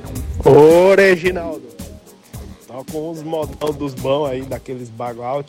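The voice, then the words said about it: Southern Brazilian accent. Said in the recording (Portuguese): “tu percebe o sotaque do sul aí do ...? Analise bem.”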